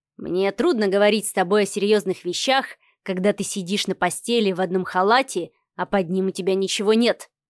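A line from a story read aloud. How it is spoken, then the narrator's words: Muttered. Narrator (Russian): пробормотал Адмиралов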